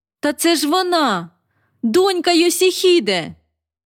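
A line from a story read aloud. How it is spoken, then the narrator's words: Almost shouting. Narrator (Ukrainian): Я трохи не закричала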